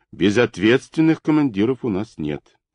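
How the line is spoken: Calm remark. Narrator (Russian): спокойно заметил Шубин

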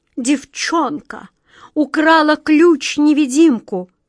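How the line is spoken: Moaning. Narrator (Russian): простонала королева

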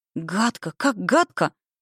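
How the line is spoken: Upset exclamation. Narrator (Russian): воскликнула Саша расстроенно

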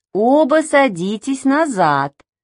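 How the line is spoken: Plain. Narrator (Russian): сказала тетя

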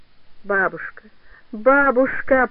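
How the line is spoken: Muffled moan. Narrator (Russian): простонала та глухо

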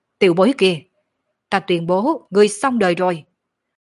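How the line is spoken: Fierce. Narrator (Vietnamese): hùng dữ nói

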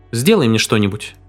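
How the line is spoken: Curt, clipped. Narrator (Russian): отрывисто произнесла она

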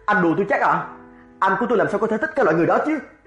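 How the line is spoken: Shouting. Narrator (Vietnamese): Cậu ta quát Phan Văn Thiệu

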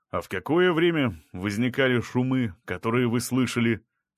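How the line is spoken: Plain question. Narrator (Russian): спросил Краснощеков

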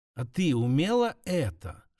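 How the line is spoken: Whispered. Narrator (Russian): шептало прошлое

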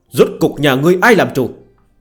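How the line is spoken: Angry old man's shout. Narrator (Vietnamese): Dương lão đầu giận cả quát

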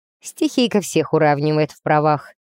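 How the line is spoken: Skeptical snort. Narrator (Russian): хмыкнул капитан, кажется, ни на мгновение мне не поверив

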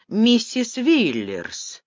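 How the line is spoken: Thoughtful. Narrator (Russian): задумчиво произнес Вексфорд

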